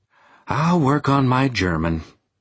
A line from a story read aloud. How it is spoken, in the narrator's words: I said with a sigh